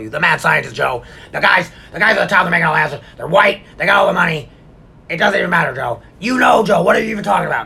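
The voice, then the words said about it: Imitates another person's voice. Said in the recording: “That's my Alex Jones impression ... I think it's pretty good”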